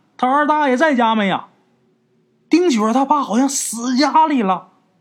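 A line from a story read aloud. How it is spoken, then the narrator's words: Terrified shout. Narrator (Chinese): 这人可坏了，浑身肉皮都发麻，吓得就喊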